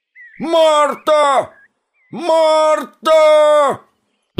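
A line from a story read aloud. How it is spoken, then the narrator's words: Old man yelling. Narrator (Russian): Заорал дед в сторону дома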